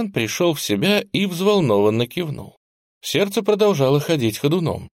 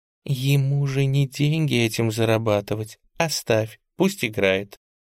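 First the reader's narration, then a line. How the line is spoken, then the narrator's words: Quiet hiss. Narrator (Russian): тихонько прошипела ему на ухо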